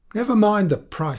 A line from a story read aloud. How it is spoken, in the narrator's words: she cried